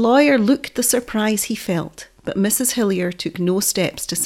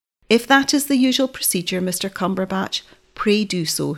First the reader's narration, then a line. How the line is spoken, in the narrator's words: said coldly